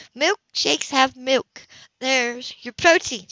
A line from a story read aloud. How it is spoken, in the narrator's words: she laughed